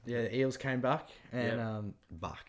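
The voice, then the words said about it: Put-on New Zealand accent. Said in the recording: “That's such a Kiwi. It's my Kiwi accent.”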